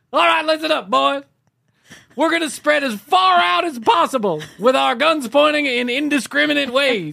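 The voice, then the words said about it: Yelling loudly. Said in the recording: “Not sure why I'm yelling”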